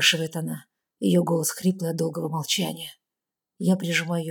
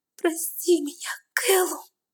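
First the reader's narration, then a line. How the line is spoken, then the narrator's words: Sudden sob, woman. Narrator (Russian): вдруг всхлипывает она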